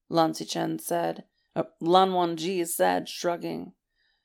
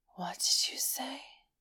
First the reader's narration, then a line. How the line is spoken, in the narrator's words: He breathed